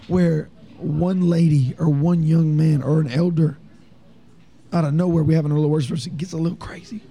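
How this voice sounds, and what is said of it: Hoarse voice with slight accent. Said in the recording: “I'm talking fast now ... I got a little bit of an accent and a hoarse voice”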